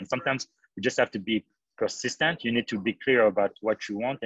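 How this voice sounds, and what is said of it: African-accented English. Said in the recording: “an immigrant from Africa with a strange accent who can barely speak English”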